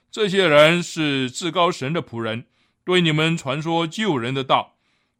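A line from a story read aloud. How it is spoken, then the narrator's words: Shouting. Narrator (Chinese): 他跟随保罗和我们喊着说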